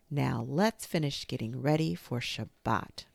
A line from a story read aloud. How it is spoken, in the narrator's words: Rose said